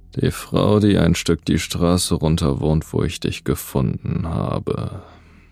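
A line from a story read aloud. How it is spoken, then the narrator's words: Thoughtful. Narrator (German): Dann sagte er mit nachdenklicher Stimme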